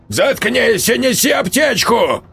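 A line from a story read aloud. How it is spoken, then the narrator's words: Barked. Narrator (Russian): рявкнул Матвеич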